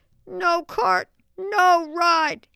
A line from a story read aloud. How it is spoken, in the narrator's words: exclaimed Travis